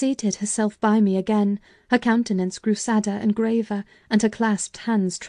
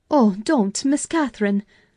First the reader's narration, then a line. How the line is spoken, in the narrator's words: I cried